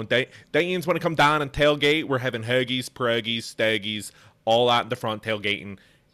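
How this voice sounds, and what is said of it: Put-on Pittsburgh accent. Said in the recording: “Pittsburgh accent is a really hard one to do ... it's so strong ... it's in the front of the mouth. Your tongue is always touching the front of your teeth.”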